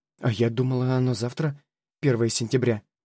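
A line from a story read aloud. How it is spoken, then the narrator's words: Confused mumbling. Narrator (Russian): пробормотала мама, растерянно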